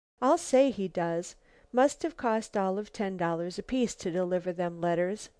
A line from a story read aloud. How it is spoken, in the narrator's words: chuckled the carrier